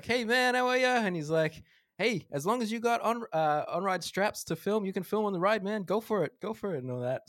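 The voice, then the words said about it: Bad put-on American bro accent. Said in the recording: “that was the worst American accent ... you actually sounded like a bro ... he probably had a Southern accent”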